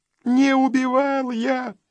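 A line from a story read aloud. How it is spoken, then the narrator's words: Crying shout. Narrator (Russian): плачущим голосом выкрикнул Федя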